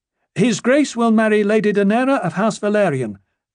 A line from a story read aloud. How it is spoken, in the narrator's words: Gaemon shouted happily